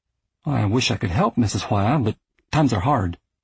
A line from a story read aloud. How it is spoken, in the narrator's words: my mother said